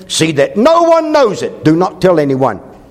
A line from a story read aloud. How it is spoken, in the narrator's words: Jesus sternly warned them, saying